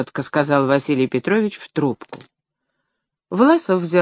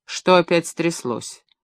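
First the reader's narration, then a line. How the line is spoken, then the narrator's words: Dry question. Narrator (Russian): сухо спросил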